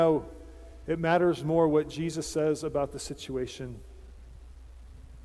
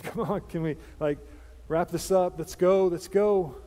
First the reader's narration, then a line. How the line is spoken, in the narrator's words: Jairus is in the background and just kind of maybe shifting a little bit and sighing, saying